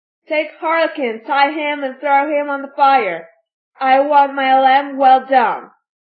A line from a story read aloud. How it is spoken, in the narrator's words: Fire Eater yelled at them in a hoarse voice